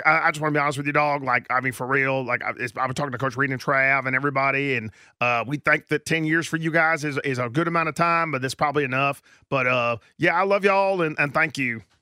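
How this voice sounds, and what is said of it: Patrick Mahomes impression. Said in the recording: “He was doing Pat Mahomes ... that impression”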